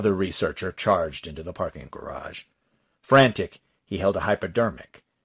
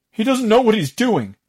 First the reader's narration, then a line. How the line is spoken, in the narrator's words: my researcher yelled